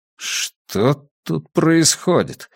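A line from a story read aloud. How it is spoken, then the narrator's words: Displeased grumble. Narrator (Russian): недовольно проворчал Драккайнен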